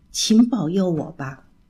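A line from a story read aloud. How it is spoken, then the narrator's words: Low voice. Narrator (Chinese): 低声地说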